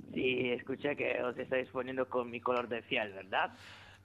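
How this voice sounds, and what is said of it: Put-on Italian accent. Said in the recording (Spanish): “¿cómo es que hablas con acento italiano?”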